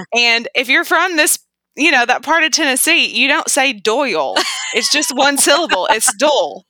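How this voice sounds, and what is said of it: Southern American accent. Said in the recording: “your delightful Southern accent”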